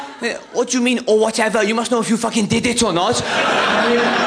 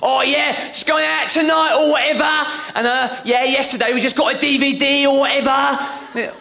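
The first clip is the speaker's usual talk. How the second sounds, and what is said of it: Put-on Cockney accent. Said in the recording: “I'll try and do the Cockney accent ... It's good, but it needs polish, I think ... She was shouting into this mobile”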